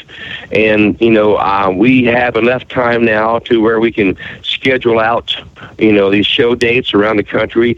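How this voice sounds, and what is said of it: Texas accent. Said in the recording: “that maybe that old Texas accent might be rubbing off there ... I knew there was something Texas related to you”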